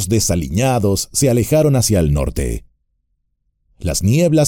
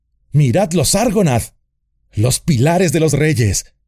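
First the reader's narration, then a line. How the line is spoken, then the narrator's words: Shouting. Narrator (Spanish): gritó Aragorn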